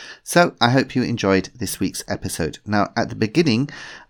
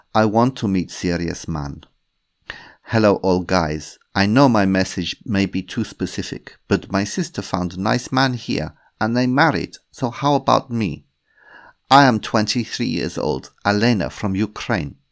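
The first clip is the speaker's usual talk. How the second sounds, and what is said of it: Put-on foreign accent. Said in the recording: “I'm going to have to do an accent for this. Please excuse me.”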